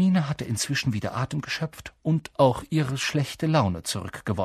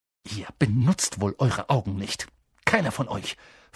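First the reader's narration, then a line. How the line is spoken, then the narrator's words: Angry hissing. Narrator (German): fauchte sie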